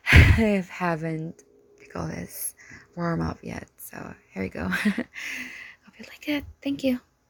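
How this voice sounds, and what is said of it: Raspy voice. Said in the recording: “my voice is just kind of raspy.”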